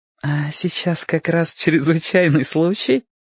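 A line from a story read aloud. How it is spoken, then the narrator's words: Giggling. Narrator (Russian): хихикнула Роско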